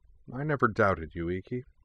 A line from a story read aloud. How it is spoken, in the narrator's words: replied Jinora calmly